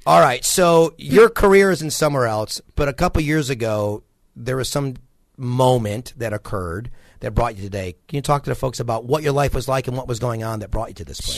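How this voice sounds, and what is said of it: Nasal voice. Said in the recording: “my nasal tone voice”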